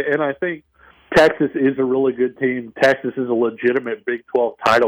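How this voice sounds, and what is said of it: Usual voice. Nothing is said of it.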